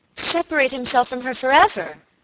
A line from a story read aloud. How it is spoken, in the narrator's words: exclaimed Alicia